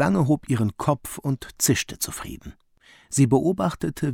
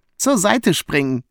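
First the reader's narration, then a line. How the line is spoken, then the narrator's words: Laughing. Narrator (German): lachte Gulu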